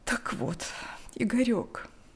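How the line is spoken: Smiling through tears, mother. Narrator (Russian): улыбнулась сквозь слезы мать

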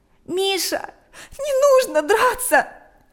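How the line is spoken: Tearful. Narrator (Russian): произнесла она сквозь слезы

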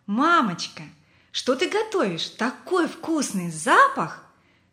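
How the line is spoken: Joyful exclamation. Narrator (Russian): он радостно воскликнул

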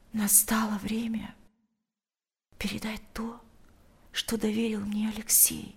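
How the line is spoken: Whisper in ear. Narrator (Russian): прошептала она ему на ухо

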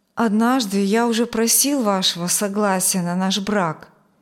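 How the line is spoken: Hesitant. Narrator (Russian): неуверенно начал он

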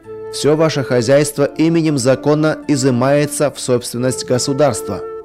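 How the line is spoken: Loud. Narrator (Russian): громко добавил руководитель оперативной группы

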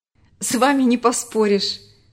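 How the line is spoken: Laughing. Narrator (Russian): рассмеялся Марк

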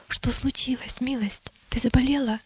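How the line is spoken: Whispered. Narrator (Russian): Христиана шепнула

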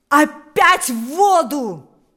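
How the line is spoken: Shouting. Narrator (Russian): закричал теперь уже сам Паисий

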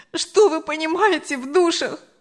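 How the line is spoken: Sobbing. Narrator (Russian): Анжела уже рыдала

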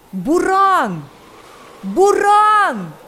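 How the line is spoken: Frantic screaming, several voices. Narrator (Russian): Истошно закричали несколько голосов

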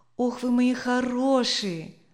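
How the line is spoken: Tender call. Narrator (Russian): ласково окликнул он

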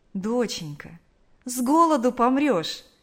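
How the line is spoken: Tender mother. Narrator (Russian): ласково сказала мать

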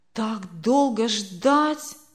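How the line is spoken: Disappointed drawl. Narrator (Russian): разочарованно протянул он

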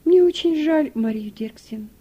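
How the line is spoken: Sighing. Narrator (Russian): вздохнула хозяйка

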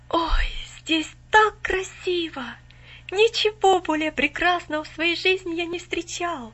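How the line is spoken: Awed exclamation. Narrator (Russian): воскликнул, все еще под недавним впечатлением

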